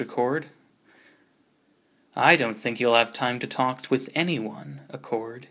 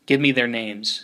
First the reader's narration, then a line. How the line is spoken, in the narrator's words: said Accord, quickly